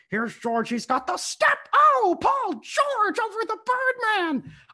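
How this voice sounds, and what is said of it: Marv Albert impression. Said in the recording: “the Marv Albert call ... good Marv impersonation”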